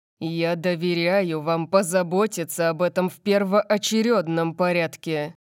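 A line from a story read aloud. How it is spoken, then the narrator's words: Growled. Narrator (Russian): прорычал он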